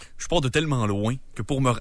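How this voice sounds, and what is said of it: Poor imitation of another person's voice. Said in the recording (French): “Fais-nous une imitation. ... Du mieux que t'es capable. ... c'est pourri comme imitation.”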